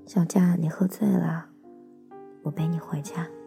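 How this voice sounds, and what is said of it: Quiet whispered voice. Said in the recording (Chinese): “小声的在他耳边说”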